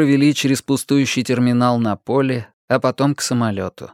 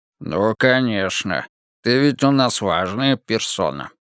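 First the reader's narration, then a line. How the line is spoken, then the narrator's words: Mocking grumble. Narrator (Russian): насмешливо проворчал Вик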